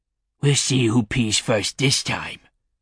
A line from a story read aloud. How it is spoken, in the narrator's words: growled